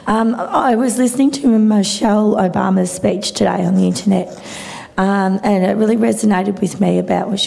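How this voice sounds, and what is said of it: Hoarse, strained voice. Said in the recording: “I've lost my voice. I did a public speaking course the other day”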